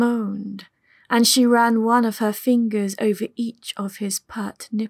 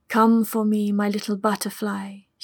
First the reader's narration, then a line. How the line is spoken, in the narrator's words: spoke softly but clearly